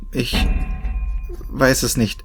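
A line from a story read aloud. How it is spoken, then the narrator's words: Stammering. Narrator (German): stammelte ich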